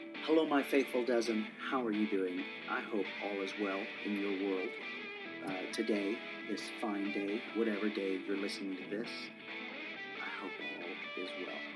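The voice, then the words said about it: Congested, stuffy-nosed voice. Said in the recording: “I sound so weird right now... I'm a little congested”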